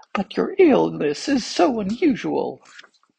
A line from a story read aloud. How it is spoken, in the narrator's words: said one of the physicians in a trembling voice